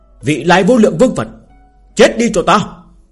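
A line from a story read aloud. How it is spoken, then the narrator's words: Loud shout. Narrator (Vietnamese): hắn hét lớn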